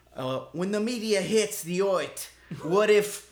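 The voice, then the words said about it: Bad put-on Brooklyn accent. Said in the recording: “Brooklyn ... It wasn't as bad as my accent”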